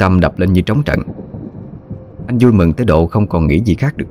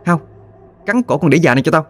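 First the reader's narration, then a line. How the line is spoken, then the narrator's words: Young woman's sudden shout. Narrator (Vietnamese): Chợt giọng cô gái quát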